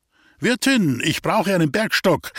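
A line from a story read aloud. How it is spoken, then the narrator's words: Music professor calling. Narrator (German): rief der Musikprofessor H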